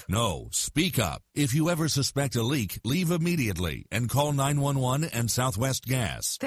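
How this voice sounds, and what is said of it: Deep-voiced announcer narrator voice. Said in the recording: “Deep Voice Narrator”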